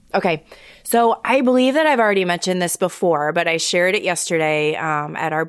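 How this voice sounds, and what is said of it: Tired, fading voice. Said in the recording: “my voice is starting to fade out here.”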